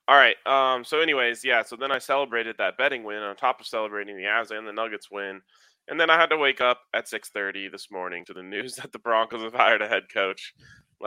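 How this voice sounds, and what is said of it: Tired, worn-out voice. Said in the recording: “if you can't just hear it in my voice or see it in my eyes, I'm fighting through the day.”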